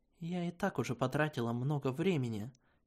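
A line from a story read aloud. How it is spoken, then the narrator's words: Quiet. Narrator (Russian): тихо произнесла я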